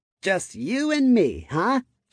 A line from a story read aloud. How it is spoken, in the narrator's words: she asked with a manic laugh